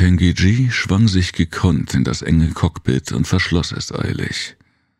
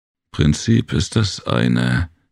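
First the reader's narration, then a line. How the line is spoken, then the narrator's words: Annoyed growl. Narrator (German): knurrte Jem verärgert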